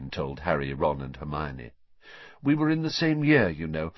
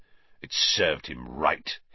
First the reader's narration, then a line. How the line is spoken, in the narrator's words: he sneered